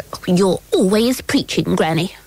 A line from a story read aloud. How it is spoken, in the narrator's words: said Queenie rather crossly